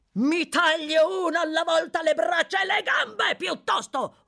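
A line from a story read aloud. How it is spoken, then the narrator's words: Screamed. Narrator (Italian): urlò Sykes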